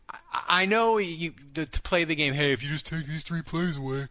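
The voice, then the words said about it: Nerdy put-on voice. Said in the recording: “That was my nerd voice.”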